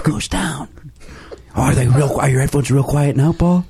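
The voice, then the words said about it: Whispering. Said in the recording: “That's because I'm whispering.”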